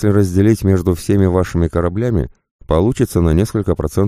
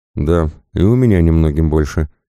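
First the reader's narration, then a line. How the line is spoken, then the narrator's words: Sad sigh. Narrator (Russian): печально вздохнула Пайпер Райт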